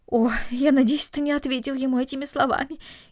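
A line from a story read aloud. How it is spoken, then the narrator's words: Mother's frightened voice. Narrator (Russian): испуганно произнесла мать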